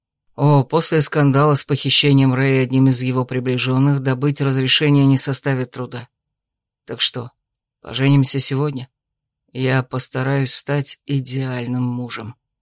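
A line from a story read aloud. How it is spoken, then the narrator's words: Purring. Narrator (Russian): промурлыкал он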